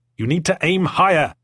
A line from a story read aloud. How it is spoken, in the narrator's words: shouted Warden over the noise of the chariot